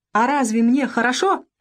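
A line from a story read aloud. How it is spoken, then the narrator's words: Shrill exclamation. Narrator (Russian): визгливо воскликнул Якушев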